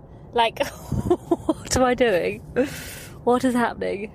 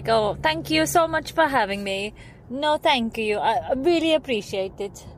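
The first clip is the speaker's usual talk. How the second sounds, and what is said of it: English with Italian accent. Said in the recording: “I found myself starting to talk English in an Italian accent.”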